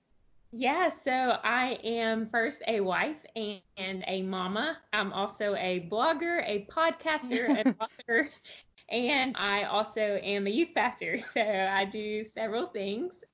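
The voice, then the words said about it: Texan Southern US accent. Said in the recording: “I am from Texas, if people can probably hear my accent and they're thinking she's got to be from down south somewhere”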